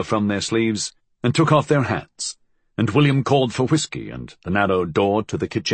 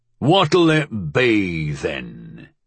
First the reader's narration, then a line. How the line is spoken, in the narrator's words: he boomed